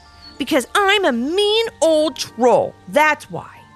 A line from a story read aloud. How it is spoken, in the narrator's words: shouted the troll